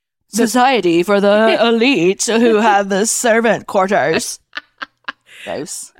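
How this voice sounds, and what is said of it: Put-on posh rich-person accent. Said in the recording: “I don't know what accent that was ... because you've never heard rich people talk”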